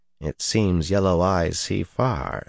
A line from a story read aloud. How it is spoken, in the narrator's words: Sulin said flatly